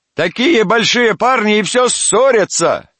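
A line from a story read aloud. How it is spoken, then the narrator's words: Woman shouting. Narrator (Russian): кричала тетка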